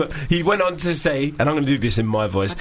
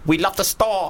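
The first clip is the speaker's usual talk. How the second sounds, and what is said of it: Impression of rapper B Real. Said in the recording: “That's a great impersonation... God, it's like he's here.”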